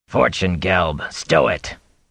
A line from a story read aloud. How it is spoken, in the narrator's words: growled a man